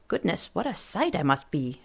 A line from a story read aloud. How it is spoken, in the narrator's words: muttered under her breath